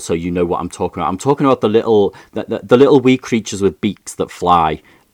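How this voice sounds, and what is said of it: Liverpool English accent. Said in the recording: “my Liverpool accent ... If I was a posher, more southern English person, I would say birds ... sometimes people think I'm talking about grizzly bears with my accent”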